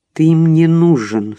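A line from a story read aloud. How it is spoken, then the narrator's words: Through clenched teeth. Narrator (Russian): сквозь зубы сказала она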